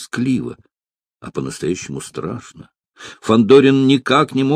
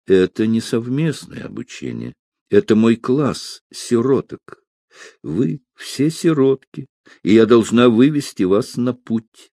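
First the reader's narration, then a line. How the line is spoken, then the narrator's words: Sad, smiling tone. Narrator (Russian): леди Эстер грустно улыбнулась и сказала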